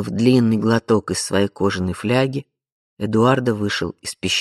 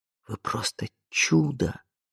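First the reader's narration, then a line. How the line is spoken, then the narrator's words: Whispered. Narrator (Russian): прошептал он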